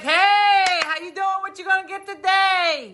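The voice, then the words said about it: Put-on accent. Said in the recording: “I don't know why I'd have that accent.”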